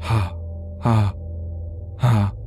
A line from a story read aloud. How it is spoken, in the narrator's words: breathing hard, and would quietly say